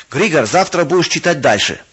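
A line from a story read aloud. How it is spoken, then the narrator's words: Commanding tone. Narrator (Russian): властным тоном сказал барон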